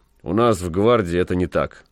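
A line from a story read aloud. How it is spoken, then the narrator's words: Dry curt remark. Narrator (Russian): сухо сказал ротмистр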